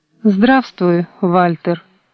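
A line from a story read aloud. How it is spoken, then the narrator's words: Cold, quiet voice. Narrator (Russian): Холодно, не повышая голоса, произнесла Маргарита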